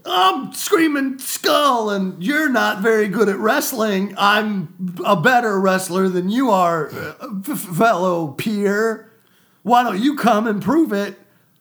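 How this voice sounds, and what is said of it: Over-the-top wrestler promo voice. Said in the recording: “my, like, wrestler persona ... Cut a promo.”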